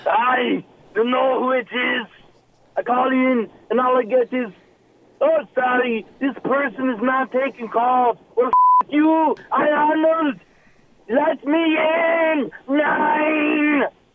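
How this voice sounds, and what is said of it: Put-on accent, inconsistent. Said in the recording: “That accent wandered a little.”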